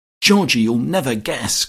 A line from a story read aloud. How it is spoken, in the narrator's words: cried Hermy